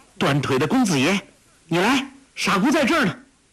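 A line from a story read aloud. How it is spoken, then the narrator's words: Calling out. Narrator (Chinese): 黄蓉只如不见，伸左手指着庙门叫道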